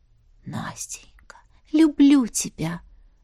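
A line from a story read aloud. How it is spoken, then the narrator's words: Whisper. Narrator (Russian): шептала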